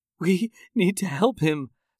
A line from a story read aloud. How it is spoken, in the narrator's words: Sarah said between sobs